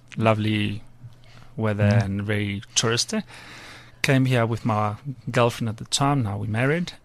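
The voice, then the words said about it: Spanish accent. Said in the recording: “I have an accent. ... I'm Spanish. I was born in Spain, southern Spain.”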